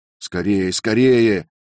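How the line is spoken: Shouted. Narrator (Russian): крикнул Роберт

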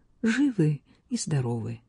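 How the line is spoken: Strangled whisper. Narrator (Russian): прошептала Кат сдавленным голосом

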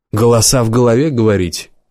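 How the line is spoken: Laughing. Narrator (Russian): Убер засмеялся

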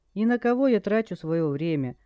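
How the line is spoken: Sad musing to oneself. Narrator (Russian): Обращаясь к самому себе, печально поинтересовался Джай

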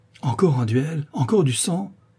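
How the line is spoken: Exclaimed. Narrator (French): s'écria Rosambert

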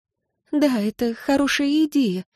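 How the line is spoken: Wife's sighing. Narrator (Russian): вздохнула жена

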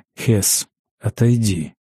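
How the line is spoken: Whispered. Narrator (Russian): шепнул Ангус

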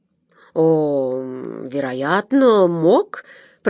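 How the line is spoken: Drawl. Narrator (Russian): протянул Голд

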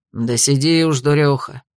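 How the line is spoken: Good-natured grumble. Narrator (Russian): беззлобно проворчал

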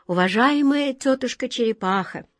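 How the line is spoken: Gentle address. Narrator (Russian): ласково обратился к ней волшебник Алеша

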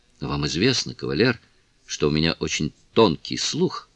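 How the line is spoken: Plain. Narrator (Russian): сказала леди Ромейн

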